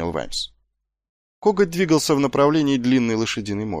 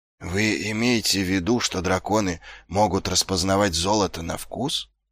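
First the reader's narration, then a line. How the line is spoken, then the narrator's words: Whisper. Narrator (Russian): прошептал Ваймс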